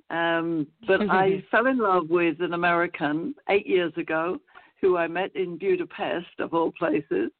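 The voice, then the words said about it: London English accent. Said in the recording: “as you might tell from my accent, I come from London, England”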